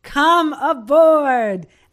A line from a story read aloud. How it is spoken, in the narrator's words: He then shouted